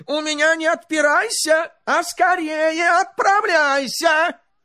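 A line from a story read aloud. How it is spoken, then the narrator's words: Angry tsar shouting. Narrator (Russian): Царь со гневом закричал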